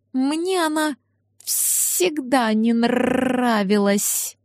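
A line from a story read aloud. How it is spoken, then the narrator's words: Distant drawl. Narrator (Russian): протянул Ларс, словно издалека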